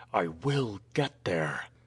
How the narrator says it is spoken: his lips muttered

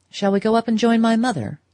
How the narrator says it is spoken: he suggested curtly

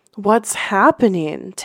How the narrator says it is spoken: Taeyong gasped, his legs trembling from the effort

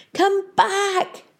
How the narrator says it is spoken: they could hear Peavy shouting somewhere ahead of them

